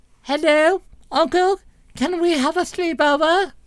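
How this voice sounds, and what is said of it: Put-on British accent. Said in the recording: “Next time it'll be British accent. ... That's not very good.”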